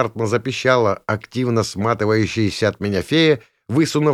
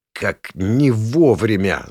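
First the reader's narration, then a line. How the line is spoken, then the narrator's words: Hoarse wheeze. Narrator (Russian): захрипел я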